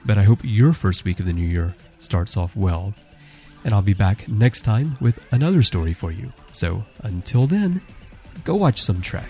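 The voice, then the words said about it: Soft voice, congested with cold. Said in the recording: “my voice is a little bit soft today as I've got a bit of a cold,”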